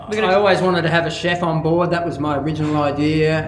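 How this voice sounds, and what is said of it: Australian accent. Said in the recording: “my pronunciation ... my pretty epic Aussie accent”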